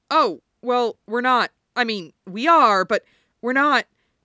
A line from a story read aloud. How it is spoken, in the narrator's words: Styles stammers